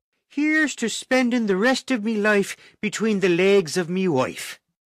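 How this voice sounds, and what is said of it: Put-on Irish accent. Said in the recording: “a proper Irish accent”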